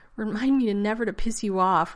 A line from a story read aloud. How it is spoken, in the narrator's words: Rodney gasped